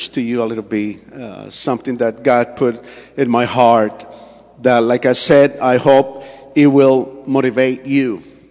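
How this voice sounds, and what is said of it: Colombian Spanish accent in English. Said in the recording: “my accent, I'm Colombian, you know, and English is not my first language.”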